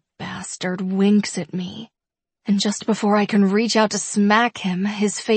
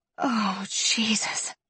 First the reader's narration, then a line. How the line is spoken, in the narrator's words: groan as the delicious sensation flows up my core and through my veins